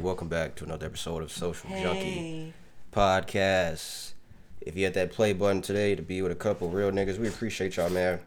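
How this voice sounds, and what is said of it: Congested, nasal voice. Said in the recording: “apologize for my voice. I'm very congested, guys. ... for the nasal congestion”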